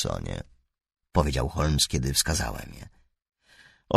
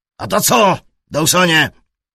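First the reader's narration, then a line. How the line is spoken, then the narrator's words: Shouted. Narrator (Polish): krzyknął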